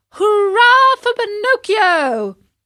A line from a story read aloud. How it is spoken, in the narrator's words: all the boys shouted